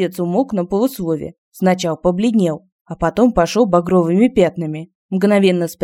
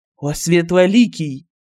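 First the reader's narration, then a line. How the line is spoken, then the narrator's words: Bitter wail. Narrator (Russian): С горечью взвыл продавец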